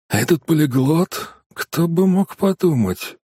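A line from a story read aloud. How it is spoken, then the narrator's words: Muttering in Danish. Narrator (Russian): пробормотал Ландау на датском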